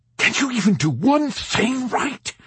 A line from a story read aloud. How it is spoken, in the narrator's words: he pleaded, turning beet red with vexation